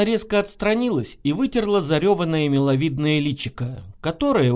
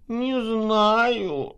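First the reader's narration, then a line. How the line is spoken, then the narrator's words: Mumbled. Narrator (Russian): промямлила Наташа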